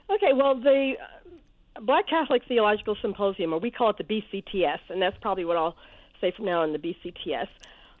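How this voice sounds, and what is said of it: Slightly hoarse voice. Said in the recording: “As you can hear, my voice is a little hoarse. I'm getting over the flu”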